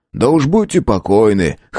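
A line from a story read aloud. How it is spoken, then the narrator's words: Chuckling. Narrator (Russian): хохотнул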